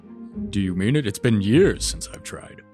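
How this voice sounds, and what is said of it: Minotaur character voice. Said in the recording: “Your Minotaur's flawless. ... Your accent's immaculate. I can tell you've definitely worked on your consonants.”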